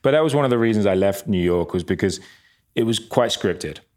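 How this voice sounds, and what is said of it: English accent. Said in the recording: “I've got a good English accent”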